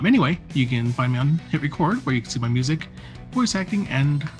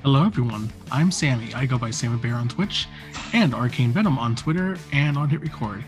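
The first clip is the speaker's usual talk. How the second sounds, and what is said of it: Announcer-style radio voice. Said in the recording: “I keep slipping into this radio voice”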